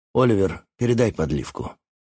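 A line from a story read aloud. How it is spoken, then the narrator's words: Sighing. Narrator (Russian): Отец вздохнул, сказал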